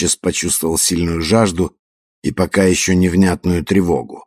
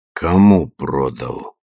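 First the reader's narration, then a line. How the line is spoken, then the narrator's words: Muffled hoarse voice. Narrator (Russian): Марио не узнал свой голос глухой и хриплый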